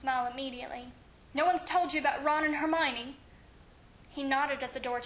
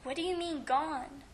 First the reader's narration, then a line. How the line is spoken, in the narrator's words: He asked quietly